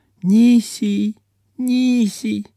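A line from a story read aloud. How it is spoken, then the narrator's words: Soft babbling. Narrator (Russian): пролепетала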